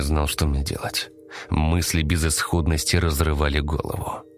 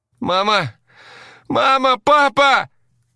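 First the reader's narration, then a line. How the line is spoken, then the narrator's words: Shouting. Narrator (Russian): Закричал я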